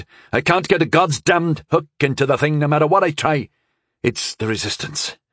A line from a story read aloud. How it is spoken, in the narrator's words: I spat, blood in my mouth